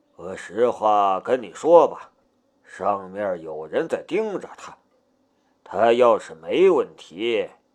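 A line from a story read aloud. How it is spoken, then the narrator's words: Sighing. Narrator (Chinese): 唐天龙叹了一口气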